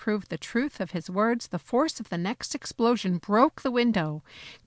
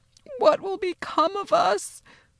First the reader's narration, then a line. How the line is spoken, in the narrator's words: Mama moaned again and again